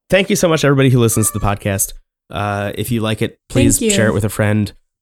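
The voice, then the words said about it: Strained, nearly lost voice. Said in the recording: “My voice is almost dead.”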